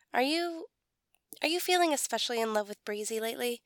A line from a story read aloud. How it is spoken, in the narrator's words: Brennan asks quickly